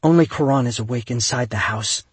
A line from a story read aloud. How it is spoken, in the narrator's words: she whispered